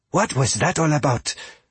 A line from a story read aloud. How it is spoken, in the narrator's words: Fia asked in an urgent whisper